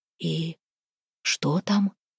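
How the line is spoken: Whisper. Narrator (Russian): прошептал Харапун

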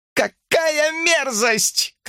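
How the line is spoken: Shouting. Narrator (Russian): кричала Шерон

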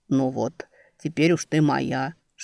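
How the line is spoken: Whisper. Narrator (Russian): шепнул он

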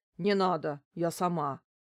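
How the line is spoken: Grumbled. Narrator (Russian): буркнула домработница

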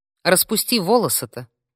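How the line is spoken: Stern, impulsive. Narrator (Russian): не удержавшись, строго проговорила

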